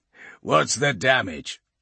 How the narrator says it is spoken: growls

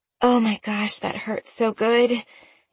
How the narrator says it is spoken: Annie said with a groan

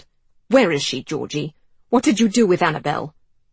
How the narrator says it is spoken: Giles snarled

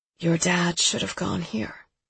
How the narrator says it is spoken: she murmurs

